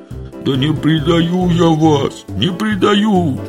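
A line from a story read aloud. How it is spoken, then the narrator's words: Ashamed howling wail. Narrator (Russian): взвыл пристыженный Митька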